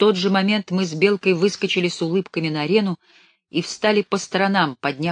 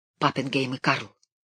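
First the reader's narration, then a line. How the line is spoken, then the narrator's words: Hurried whisper. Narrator (Russian): я шепнул в торопях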